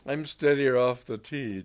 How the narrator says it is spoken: John Gooch laughed bitterly

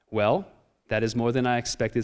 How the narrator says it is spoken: Swamiji said

